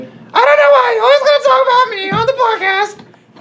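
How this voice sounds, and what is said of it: Imitates another person's voice. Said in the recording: “My impression of her, which is nothing like the way she sounds at all ... She doesn't sound anything like that. She's very soft-spoken.”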